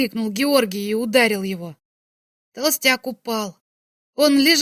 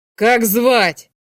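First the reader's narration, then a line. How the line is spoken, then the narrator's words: Shouted. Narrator (Russian): крикнул Георгий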